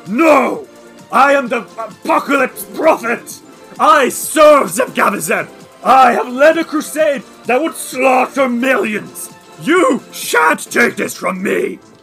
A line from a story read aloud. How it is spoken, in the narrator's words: Sarvel Everhunger roars, and he says